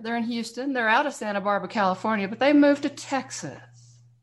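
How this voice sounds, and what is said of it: Slight Southern Texas drawl. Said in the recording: “I'm hearing a little bit of that southern drawl, girl. That don't sound like no New Mexico slang”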